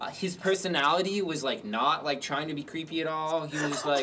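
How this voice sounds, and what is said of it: Usual voice. Nothing is said of it.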